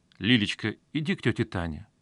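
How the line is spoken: Affectionate. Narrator (Russian): ласково произнес Мазаев

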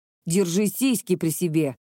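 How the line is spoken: Snapped. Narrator (Russian): огрызнулся Макото

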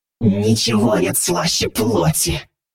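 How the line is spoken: Growling. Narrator (Russian): прорычала Аврора

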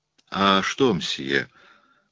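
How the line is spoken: Said uncertainly. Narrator (Russian): произнесла она неуверенно

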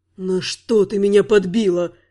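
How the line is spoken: Groaning. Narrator (Russian): простонал Теридан

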